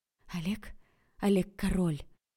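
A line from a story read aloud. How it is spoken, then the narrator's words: Hoarse laughing woman. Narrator (Russian): Василина хрипло рассмеялась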